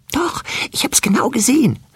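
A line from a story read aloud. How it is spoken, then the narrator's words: Whispering. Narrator (German): hörte es wispern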